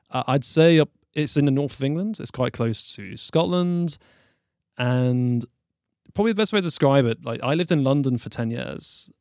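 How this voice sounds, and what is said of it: Southern English accent. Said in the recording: “no one would guess from my accent that I'm from there. Everyone would think I'm from the south of the UK ... they'll never guess from how I speak”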